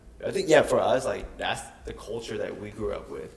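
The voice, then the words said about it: Southern urban American accent. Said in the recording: “my accent and everything about me is, like, hip hop based ... I wouldn't have this voice that I have today ... kind of like southern, like urban”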